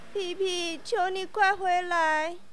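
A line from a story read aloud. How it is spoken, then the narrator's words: Mother, crying. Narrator (Chinese): 他的妈妈哭着说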